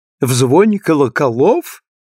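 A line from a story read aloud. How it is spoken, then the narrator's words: Laughing question. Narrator (Russian): смеясь, спросила Мэг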